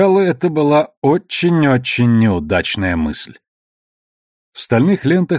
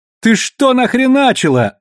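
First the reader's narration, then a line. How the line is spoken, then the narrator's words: Frightened male shriek. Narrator (Russian): взвизгнул перепуганный мужской голос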